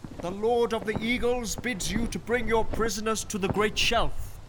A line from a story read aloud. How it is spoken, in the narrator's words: he cried